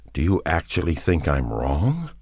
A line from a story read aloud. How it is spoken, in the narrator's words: he asked in an incredulous voice